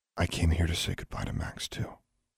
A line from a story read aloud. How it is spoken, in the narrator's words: said softly